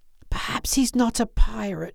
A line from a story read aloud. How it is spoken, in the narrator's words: he whispered